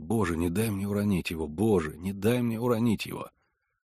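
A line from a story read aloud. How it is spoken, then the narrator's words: Barely audible prayer. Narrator (Russian): Я едва слышно молился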